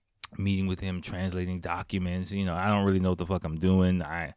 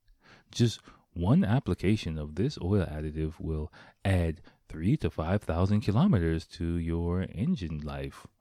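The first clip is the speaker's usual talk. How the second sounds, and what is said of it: Commercial announcer voice. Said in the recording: “I had to get my announcer voice”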